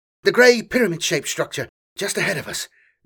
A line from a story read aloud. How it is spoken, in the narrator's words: Drell panted, still out of breath